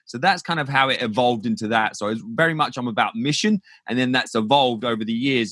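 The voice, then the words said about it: British accent. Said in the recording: “clearly that is not a US accent that we're hearing ... originally from just south of London in the UK”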